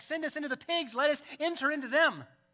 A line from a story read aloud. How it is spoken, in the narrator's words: they begged him, saying